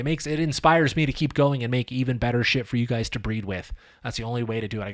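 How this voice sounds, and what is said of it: Strained, tired, dry-sounding voice. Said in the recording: “my voice is burning out. My throat is starting to hurt. I'm getting super dry.”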